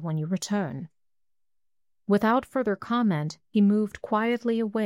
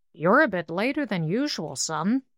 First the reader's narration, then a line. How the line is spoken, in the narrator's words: he growled pleasantly